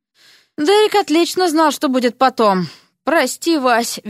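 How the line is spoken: Guilty exhaled words. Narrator (Russian): виновато выдохнул

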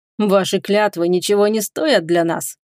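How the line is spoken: Laughing elf. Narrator (Russian): рассмеялся эльф

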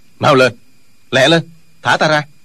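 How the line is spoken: Sullen angry shout. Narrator (Vietnamese): Trương Du Kỵ hậm hực quát lên

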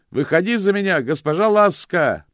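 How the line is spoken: Shouted. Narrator (Russian): прокричал он

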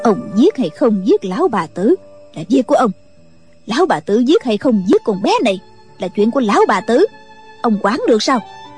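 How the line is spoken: Sneering. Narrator (Vietnamese): Kim Hoa bà cười khẩy nói

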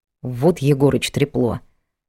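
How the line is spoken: Annoyed mutter. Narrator (Russian): досадливо пробормотал Влад

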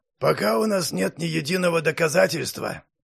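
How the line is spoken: Wincing grumble. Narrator (Russian): поморщившись, проворчал мастер Патрик

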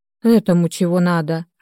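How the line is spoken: Sour grumble. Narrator (Russian): окончательно скиснув, проворчала я

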